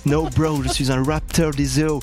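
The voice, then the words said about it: Put-on Californian accent. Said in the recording (French): “accent californien”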